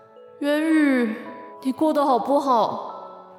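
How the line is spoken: Heavy sighing. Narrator (Chinese): 长吁短叹

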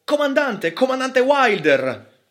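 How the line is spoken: Sudden shout. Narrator (Italian): a un tratto gridò

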